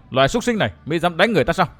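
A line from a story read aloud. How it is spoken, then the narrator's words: Shout. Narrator (Vietnamese): Nàng quát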